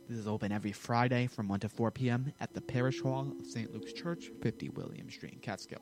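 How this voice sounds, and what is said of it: Very fast speech. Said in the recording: “I said that fast,”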